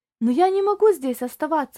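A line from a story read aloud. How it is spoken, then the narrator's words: Exclaimed. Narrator (Russian): воскликнул Тони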